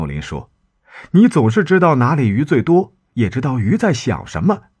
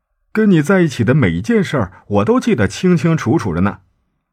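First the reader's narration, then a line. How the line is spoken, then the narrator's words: Joking. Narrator (Chinese): 圣地亚哥……开玩笑的问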